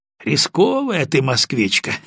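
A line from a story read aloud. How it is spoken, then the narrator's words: Mocking, slightly questioning. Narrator (Russian): насмешливо и чуть вопросительно заметил Виктор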